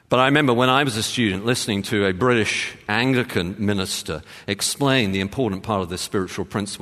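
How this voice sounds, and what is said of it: English accent. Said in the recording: “my accent ... I come from ... England”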